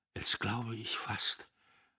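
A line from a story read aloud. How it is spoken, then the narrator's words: Stammer. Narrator (German): stammelte Notgroschen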